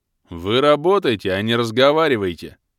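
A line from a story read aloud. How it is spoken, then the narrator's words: Grumbling guard. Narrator (Russian): заворчал стражник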